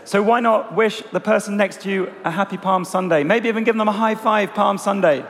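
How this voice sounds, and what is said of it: Strained, fading hoarse voice. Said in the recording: “losing my voice a little bit”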